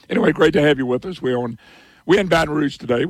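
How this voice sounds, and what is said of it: Hoarse, strained voice. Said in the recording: “I know it don't sound much like me ... You lose your voice.”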